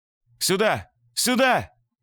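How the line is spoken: Shout from outside. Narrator (Russian): Закричал кто-то снаружи

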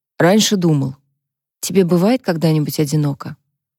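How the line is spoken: Sigh. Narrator (Russian): Люк вздохнул

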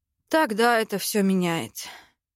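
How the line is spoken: Sighing. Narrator (Russian): Вздохнул блондин

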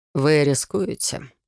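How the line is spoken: Quiet. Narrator (Russian): тихо произнес Верфолд

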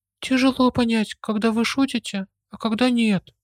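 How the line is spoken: Relaxed giggle. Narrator (Russian): В ответ хихикнула, наконец немного расслабившись

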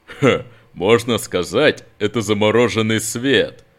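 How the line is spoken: Suppressing a laugh. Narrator (Russian): Нат едва сдержался, чтобы не хохотнуть в ответ

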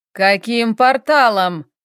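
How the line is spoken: Roar. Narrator (Russian): взревел Хел

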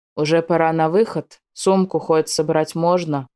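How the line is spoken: Sullen deep-voiced boy. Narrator (Russian): Угрюмо пробасил парнишка

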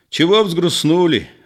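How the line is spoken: Cheerful and loud. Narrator (Russian): весело и громко сказал Егор

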